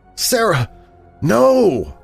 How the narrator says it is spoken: cried impotently in shock and disgust and horror and despair

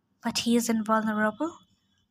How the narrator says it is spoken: Kronos said quietly

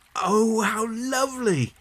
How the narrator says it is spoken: cried John

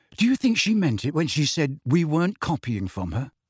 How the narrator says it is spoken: he added, in a slightly more anxious tone

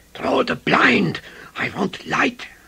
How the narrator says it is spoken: he said urgently

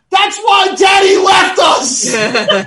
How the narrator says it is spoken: he yells

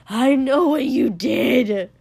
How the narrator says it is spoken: he'd screamed at Inji

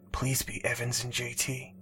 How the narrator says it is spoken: he whispered under his breath

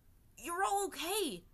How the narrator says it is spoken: Aang exclaimed, beaming

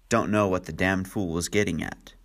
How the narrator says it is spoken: Anthony Marston growled

